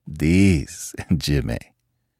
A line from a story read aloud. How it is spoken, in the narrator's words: the old man said with a short laugh